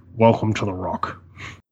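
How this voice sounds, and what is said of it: Sean Connery impression. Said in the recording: “best Sean Connery impersonation? ... set the bar really low”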